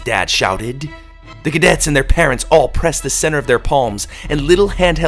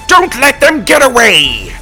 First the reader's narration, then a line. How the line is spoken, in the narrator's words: the doctor roared